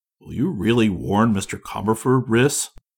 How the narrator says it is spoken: faltered

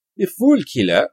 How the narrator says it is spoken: he cried

